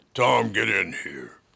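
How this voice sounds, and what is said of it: Deep-voiced imitation of another person. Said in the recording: “Her voice was deeper than mine. ... Get that voice a little deeper.”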